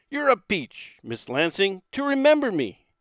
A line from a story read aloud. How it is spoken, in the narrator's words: blurted out